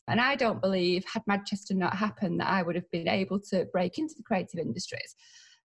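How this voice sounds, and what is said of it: Mancunian accent. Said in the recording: “this accent, this Mancunian accent”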